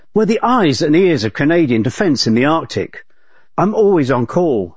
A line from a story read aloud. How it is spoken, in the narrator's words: she says